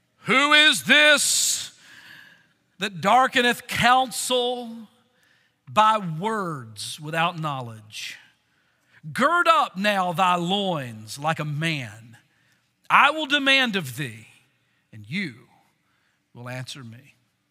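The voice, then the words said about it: Deep booming God-like voice. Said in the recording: “I'll read this in my best God voice.”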